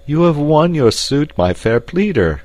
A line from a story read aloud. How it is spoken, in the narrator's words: cried